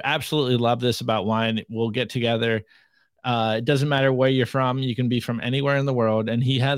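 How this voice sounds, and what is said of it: Usual voice. Nothing is said of it.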